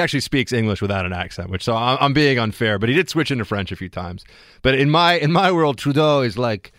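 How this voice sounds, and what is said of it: Usual voice. Nothing is said of it.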